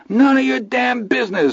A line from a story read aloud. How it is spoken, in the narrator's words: Milo shrieked